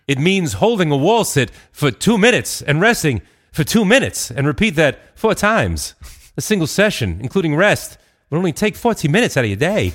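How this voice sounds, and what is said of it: Christopher Walken impression. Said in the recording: “just do this in the voice of Chris Walken ... Thank you, Chris ... that was great”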